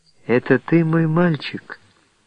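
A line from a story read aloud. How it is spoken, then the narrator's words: Affectionate, tender. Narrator (Russian): произнесла она ласково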